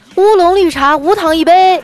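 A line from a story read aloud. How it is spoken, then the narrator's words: Calling out inward. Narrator (Chinese): 小哥哥冲里面喊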